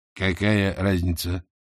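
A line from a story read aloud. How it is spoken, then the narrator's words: Sighing. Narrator (Russian): Матушка вздохнула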